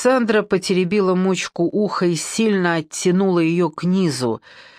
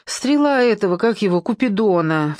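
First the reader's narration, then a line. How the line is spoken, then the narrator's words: Recalling, heavy sigh. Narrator (Russian): вспомнила Симочка и тяжело вздохнула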